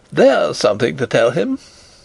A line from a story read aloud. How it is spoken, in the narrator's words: laughing and crying